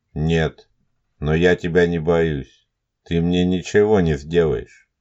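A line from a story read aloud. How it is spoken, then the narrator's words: Calm. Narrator (Russian): спокойно произнес Елисеев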